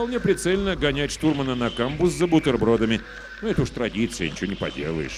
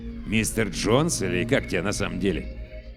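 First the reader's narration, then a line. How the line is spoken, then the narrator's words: Mumbling. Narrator (Russian): Сопровождающий бормочет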